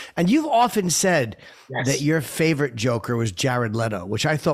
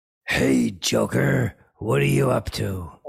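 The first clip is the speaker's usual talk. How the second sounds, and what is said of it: Batman voice impression. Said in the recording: “he did his voice must have hurt... that hurts me just to do it for 10 seconds... My masterful impression”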